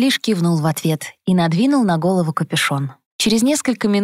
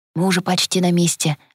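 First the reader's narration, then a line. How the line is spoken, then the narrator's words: Encouraging whisper. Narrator (Russian): ободряюще шепнул Элис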